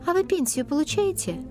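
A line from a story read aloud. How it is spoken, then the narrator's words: Innocent-sounding question. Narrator (Russian): безобидным тоном спросила Лару гардеробщица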